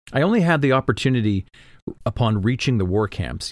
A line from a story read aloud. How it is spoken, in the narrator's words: Yasna said